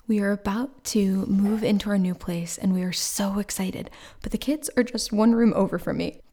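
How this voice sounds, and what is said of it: Whispering softly. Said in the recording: “I'm whispering a little bit right now”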